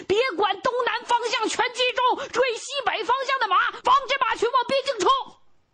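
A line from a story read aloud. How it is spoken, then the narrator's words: Hoarse, desperate shouting. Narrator (Chinese): 声嘶力竭的喊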